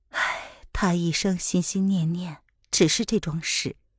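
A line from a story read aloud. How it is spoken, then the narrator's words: Sighing. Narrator (Chinese): 他又叹道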